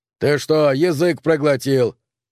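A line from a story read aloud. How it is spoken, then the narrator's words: Growling. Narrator (Russian): прорычал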